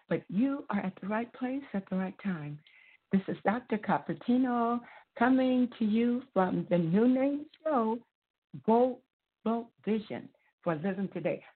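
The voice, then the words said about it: Raspy voice. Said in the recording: “My voice is raspy”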